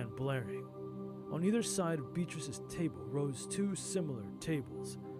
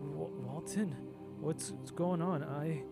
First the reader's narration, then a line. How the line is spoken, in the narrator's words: Beatrice groaned